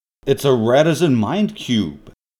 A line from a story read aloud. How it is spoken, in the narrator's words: exclaimed Time Lord